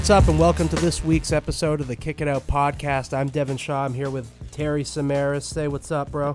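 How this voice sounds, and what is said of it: Sick, under-the-weather voice. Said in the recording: “excuse my voice a bit. I'm I'm I'm playing sick. ... I'm a little under the weather. ... I'm sniffling and whatnot.”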